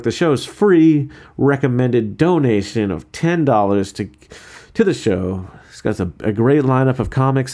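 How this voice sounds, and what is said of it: Dry voice with a twang. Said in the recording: “my voice isn't going to be as dry as right now. ... I'm not going to have this kind of twang to my voice.”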